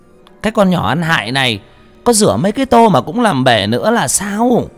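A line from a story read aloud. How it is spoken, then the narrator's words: Shrill hissing shriek. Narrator (Vietnamese): Bà rít lên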